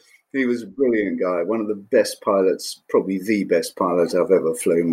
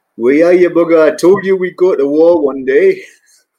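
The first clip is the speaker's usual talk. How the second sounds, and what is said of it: Broad Geordie accent. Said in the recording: “broad Geordie accent”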